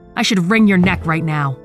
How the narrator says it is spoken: I roar

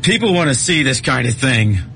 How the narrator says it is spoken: Gibbon shouted after him

